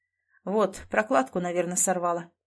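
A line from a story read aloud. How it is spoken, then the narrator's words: Mutter. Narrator (Russian): пробормотал он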